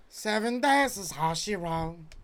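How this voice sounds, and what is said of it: Imitates a singer's voice. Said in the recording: “That's my Sting impression.”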